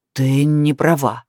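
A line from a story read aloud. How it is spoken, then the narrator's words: Angry exhale. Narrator (Russian): зло выдохнул он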